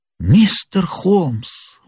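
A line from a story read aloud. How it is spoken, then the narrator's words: Exclamation. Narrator (Russian): воскликнул Мэриветтер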